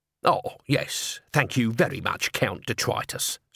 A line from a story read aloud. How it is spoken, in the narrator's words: said Nobby bitterly